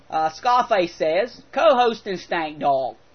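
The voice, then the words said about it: Poor put-on Australian accent. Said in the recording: “I'm going to do a horrible Australian accent ... even though it sucks ... Does that sound Australian? ... I'm not even close”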